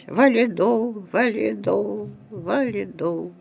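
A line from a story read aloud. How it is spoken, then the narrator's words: Dying mutter. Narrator (Russian): Мой дед умер, успев пробормотать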